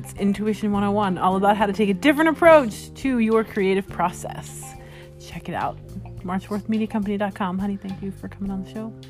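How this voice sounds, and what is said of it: Radio host announcer voice. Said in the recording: “you're doing your radio personality voice.”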